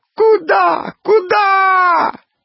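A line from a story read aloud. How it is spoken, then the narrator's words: Sudden cry, then wailing. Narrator (Russian): вскрикнул кто-то и заголосил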